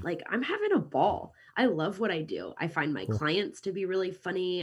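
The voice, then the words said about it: American accent, Kansas City. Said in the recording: “as you can hear from my accent, I'm American. I'm from Kansas City originally”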